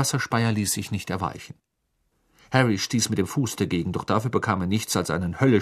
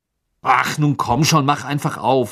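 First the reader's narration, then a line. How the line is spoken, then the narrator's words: Angry. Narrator (German): sagte er wütend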